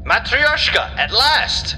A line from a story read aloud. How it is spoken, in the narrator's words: he shouted to anyone within earshot